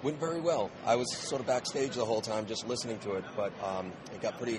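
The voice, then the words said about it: Husky, nearly lost voice. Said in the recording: “You have lost your voice, I understand. ... I have pretty much lost my voice. This is the Sunday voice, Sunday con voice. ... your husky voice there. ... Yes, it's manly.”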